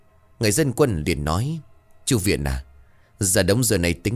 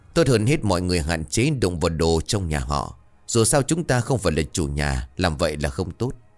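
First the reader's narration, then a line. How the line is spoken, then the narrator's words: Sighing reminder. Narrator (Vietnamese): Ông chỉ biết thở dài nhắc mọi người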